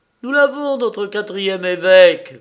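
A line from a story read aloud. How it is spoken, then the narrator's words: Shouted. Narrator (French): cria-t-elle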